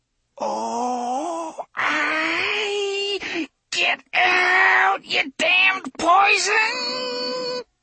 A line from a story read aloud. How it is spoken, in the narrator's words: he said, in a voice that was almost a squeal